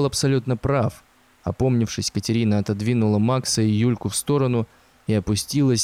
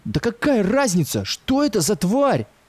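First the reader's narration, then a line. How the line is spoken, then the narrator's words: Exclamation. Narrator (Russian): воскликнул Ленька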